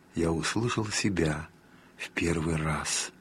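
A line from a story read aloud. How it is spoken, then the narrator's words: Quiet, moved, tearful. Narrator (Russian): со слезами на глазах сказал тихим, растроганным голосом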